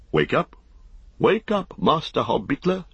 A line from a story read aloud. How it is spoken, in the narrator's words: he cried